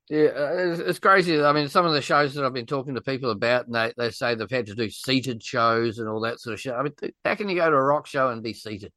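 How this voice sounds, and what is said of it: New Zealand accent. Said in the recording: “bloody Kiwi accent”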